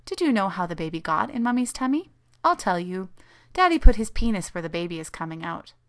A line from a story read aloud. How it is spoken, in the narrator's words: she chirped sweetly